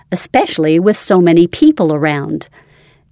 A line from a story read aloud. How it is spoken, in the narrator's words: shouted through the window